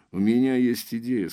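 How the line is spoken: Plain. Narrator (Russian): сказал Железовский

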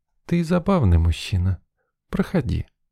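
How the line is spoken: Cooing, slightly hoarse. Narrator (Russian): проворковала слегка охрипшим голосочком

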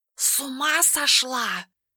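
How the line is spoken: Barely audible hiss. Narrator (Russian): едва слышно прошипел кот

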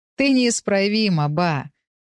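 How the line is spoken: Laughing. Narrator (Russian): рассмеялся он

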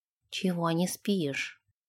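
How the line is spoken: Quiet question. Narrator (Russian): тихо спросил Нэш

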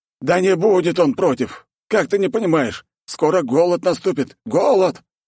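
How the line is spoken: Helpless near-moan. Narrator (Russian): почти стонал от бессилия Никодим

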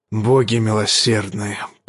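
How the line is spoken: Anguished mutter. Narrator (Russian): пробормотал король в муке

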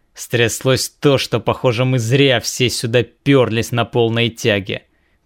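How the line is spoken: Words forced through teeth. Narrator (Russian): процедил капитан, вернее сказать, адмирал пиратского флота

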